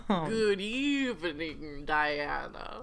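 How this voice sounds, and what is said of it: Spooky Dracula-style voice. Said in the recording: “I like your spooky voice. ... I'm a Dracula.”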